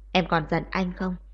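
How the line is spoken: Low, quiet voice. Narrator (Vietnamese): Kiều Huyền Thạc hạ giọng nói nhỏ

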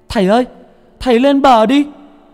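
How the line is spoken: Shout. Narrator (Vietnamese): Nó hét lên

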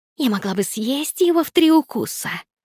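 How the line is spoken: Hissing. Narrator (Russian): зашипела Никс

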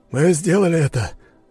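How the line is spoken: Joyful exhale. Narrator (Russian): выдохнул обрадованный Боря

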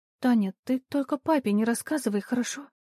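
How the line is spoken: Timid request. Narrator (Russian): робко попросила она

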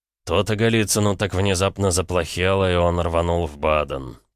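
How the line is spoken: Words hissed through teeth. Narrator (Russian): процедил

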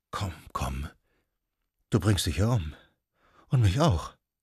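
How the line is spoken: Murmuring. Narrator (German): Sie murmelte

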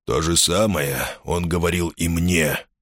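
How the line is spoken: Grumbling. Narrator (Russian): проворчал Рений

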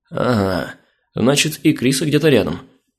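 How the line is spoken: Muttered. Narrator (Russian): пробормотал я

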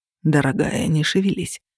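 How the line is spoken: Soft, coaxing. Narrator (Russian): произнес он мягко, словно уговаривая ребенка

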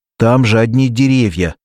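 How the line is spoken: Child shouting. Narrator (Russian): закричал мальчик

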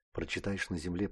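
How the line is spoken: Whisper in the ear. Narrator (Russian): прошептала в самое ухо

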